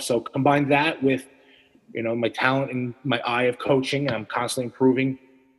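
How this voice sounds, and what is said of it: New York accent. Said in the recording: “I like that New York accent, the way you said it, Cardone Nutrition.”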